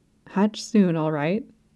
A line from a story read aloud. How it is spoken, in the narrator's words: whispered